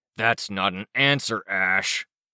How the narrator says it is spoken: he growled

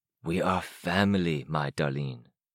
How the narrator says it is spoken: he whispered

